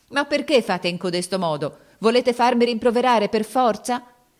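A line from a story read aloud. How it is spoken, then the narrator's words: Angry tearful shouting. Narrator (Italian): gridava con voce di rabbia e di pianto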